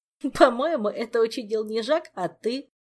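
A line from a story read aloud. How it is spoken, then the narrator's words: Giggling. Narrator (Russian): хихикнул Мафей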